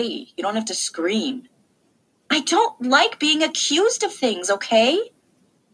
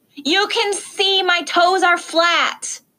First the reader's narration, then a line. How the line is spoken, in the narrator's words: I yelled